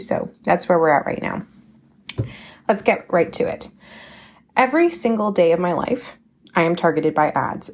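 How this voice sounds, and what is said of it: Slightly scratchy voice. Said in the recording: “apologize for my voice. It's a little bit scratchy today”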